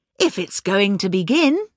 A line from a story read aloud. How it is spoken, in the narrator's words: she said cheerfully